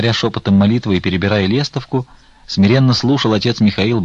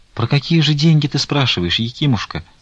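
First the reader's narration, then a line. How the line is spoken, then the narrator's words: Timid question. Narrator (Russian): робко спросил он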